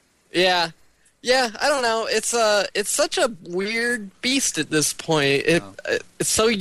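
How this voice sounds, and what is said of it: Usual voice. Nothing is said of it.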